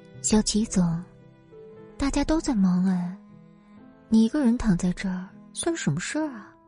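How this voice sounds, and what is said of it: Seductive, alluring voice. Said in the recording (Chinese): “用一种极具诱惑的声音说”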